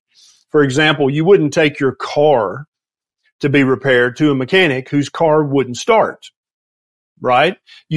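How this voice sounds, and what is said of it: Southern US accent. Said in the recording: “some people say I have an accent. I don't think I do, but I live in the southeastern United States in Tennessee.”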